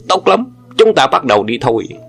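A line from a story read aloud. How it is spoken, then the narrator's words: Furious loud shout. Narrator (Vietnamese): Sông quái nghe xong cả giận quát lớn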